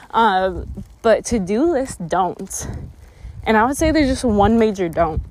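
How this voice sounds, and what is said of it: Out of breath while walking. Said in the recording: “out of breath. I'm walking up a hill.”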